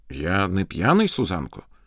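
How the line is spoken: Quiet. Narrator (Ukrainian): тихо промовив він

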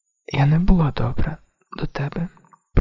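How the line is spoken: Whisper. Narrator (Ukrainian): прошепотіла Джон

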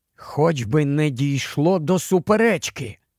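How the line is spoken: Whisper. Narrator (Ukrainian): прошепотів Каспіану Едмунд

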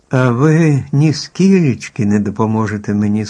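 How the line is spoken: Sad question. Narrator (Ukrainian): сумно запитала Еллі

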